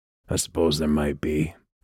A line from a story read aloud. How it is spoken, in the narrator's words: he said, his voice low and taut